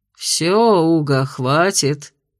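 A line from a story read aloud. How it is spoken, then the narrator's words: Jealous grumble. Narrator (Russian): ревниво проворчал Кайл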